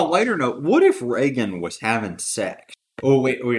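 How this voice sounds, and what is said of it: Usual voice. Nothing is said of it.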